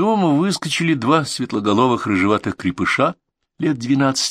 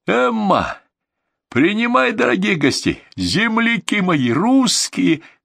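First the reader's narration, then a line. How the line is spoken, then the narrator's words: Shouted. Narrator (Russian): крикнул Петерсон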